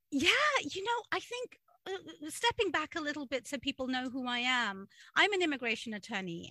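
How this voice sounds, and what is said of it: British accent. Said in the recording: “if you tune into my accent, I'm an immigrant too. I moved from the United Kingdom”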